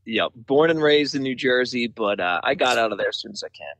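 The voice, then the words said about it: Slight East Coast American accent. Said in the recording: “you have a little bit of an accent. ... East Coaster originally. ... That's what I figured”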